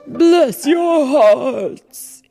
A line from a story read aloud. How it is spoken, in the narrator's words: cried